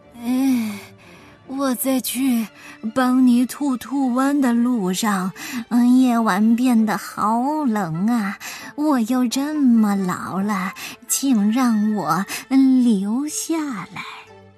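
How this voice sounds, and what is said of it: Feigned weak, feeble voice. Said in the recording (Chinese): “装出一副虚弱的样子。他用有气无力的声音说道”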